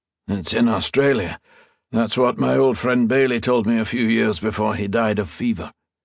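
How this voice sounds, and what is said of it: Gravelly, tired Scottish-accented voice. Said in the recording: “the lilt of his Scottish accent still present in his gravelly, tired voice”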